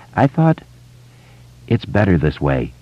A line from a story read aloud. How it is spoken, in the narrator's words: Ben said quietly